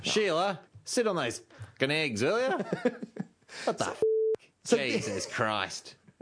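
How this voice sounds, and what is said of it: Thick put-on Australian accent. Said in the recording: “dinosaurs all had a really thick Australian accent.”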